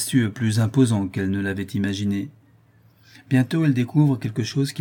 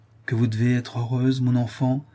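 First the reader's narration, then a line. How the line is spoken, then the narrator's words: Exclaiming. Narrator (French): s'écrie Madame Trévenoc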